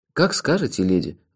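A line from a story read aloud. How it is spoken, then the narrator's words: Sigh. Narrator (Russian): вздохнул я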